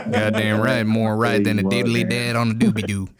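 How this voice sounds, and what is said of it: Put-on Southern American accent. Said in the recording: “do you wanna talk in a Southern accent for the rest of the episode?”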